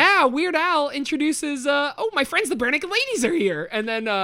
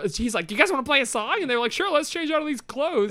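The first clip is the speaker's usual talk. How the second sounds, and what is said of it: Imitates another person's voice. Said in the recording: “That's your Weird Al impression? ... Yeah, that's my Weird Al impression.”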